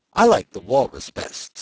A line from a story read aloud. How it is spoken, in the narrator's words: said Alice